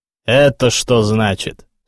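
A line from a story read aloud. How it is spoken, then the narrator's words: Menacing. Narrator (Russian): сказал грозно Кирилл Петрович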